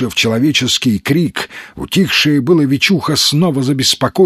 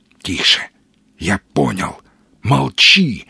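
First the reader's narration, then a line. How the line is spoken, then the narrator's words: Whispering. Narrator (Russian): зашептал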